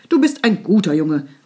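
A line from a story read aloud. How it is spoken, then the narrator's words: Called out. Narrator (German): rief Grandpa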